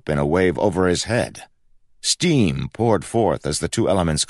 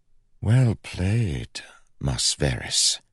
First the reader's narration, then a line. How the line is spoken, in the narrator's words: whispered